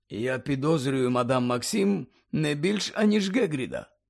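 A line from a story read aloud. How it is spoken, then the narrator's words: Calm. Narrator (Ukrainian): так само спокійно промовив Дамблдор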